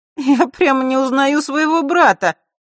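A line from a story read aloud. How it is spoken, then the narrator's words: Loud holding forth. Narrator (Russian): громко разглагольствовала Захара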